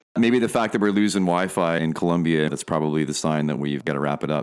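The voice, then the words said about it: Smooth radio-style voice. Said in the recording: “You got a great voice. ... You've got like the smooth rock radio voice.”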